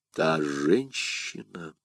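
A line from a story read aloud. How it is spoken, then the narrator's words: Muffled, barely audible question. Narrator (Russian): переспросил Атос таким глухим голосом, что Д'Артаньян едва расслышал его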